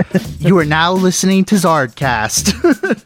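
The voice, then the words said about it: An impression of an announcer. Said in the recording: “Great impression”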